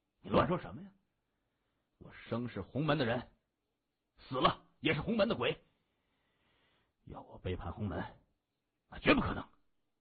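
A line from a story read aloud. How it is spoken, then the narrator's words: Feigned anger. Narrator (Chinese): 他故意露出怒色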